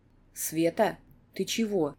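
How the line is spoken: Quiet question. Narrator (Russian): Так же тихо спрашивает Емельян

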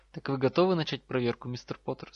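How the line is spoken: Calm question. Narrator (Russian): спокойно спросил профессор

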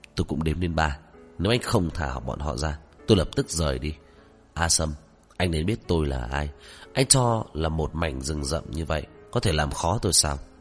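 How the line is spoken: Cold. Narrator (Vietnamese): Ngụy Tông Thao lạnh lùng

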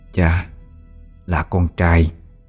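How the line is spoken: Soft and hoarse. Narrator (Vietnamese): khẽ khàn nói

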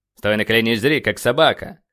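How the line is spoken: Commander growling. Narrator (Russian): рыкнул командир

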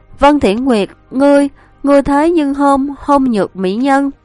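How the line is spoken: Fearful, trembling. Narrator (Vietnamese): sợ hãi run rẩy nói

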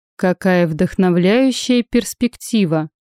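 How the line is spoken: Tired admiration. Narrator (Russian): устало восхитился Павел

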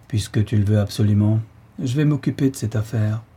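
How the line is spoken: Resigned old man. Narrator (French): fit le bonhomme d'un ton résigné

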